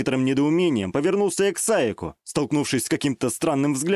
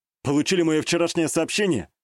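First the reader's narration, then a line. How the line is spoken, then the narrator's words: Wry snort. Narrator (Russian): хмыкнул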